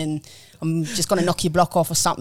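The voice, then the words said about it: Put-on South London chav accent. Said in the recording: “sometimes I really like to go a bit chav, you know, like I'm from South London ... butchering this accent ... Pretty good, man ... South London accent”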